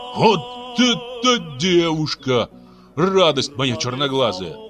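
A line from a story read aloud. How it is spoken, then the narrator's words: Exclaiming. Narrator (Russian): воскликнул он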